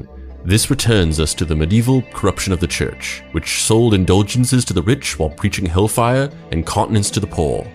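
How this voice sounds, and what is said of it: Put-on posh British accent. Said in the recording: “I don't think I can do a posh British accent.”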